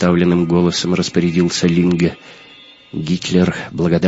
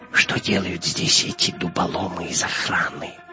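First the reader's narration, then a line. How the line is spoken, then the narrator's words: Whisper in ear. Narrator (Russian): прошептал Гитлер на ухо своему камердинеру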